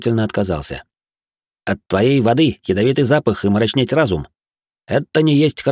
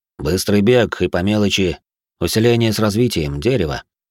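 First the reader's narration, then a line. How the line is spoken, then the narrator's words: Plain. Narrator (Russian): ответил динамит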